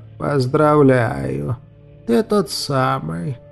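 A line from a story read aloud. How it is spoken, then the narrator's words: Mocking, after pause. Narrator (Russian): насмешливо после паузы проговорил невидимый собеседник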